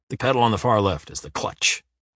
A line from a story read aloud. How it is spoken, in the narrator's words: he grunts in the end